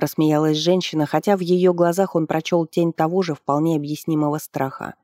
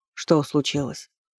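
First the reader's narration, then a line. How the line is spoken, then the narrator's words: Dejected voice. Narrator (Russian): упавшим голосом спросил Сафар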